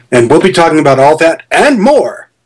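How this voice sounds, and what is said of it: Upbeat radio DJ style delivery. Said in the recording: “I sound like a top 40 DJ all of a sudden”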